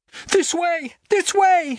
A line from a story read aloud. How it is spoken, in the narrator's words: she was shouting excitedly